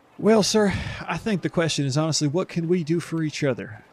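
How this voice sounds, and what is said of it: Character voice with put-on accent. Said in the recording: “Was it the accent that gave me away?”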